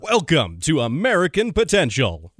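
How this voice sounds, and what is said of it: Deep announcer-style radio voice. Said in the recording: “radio voice ... give us a little bit of your announcer voice”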